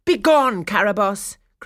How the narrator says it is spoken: cried Lilac

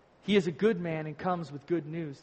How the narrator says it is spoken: replied

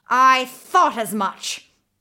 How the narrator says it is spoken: the witch cried

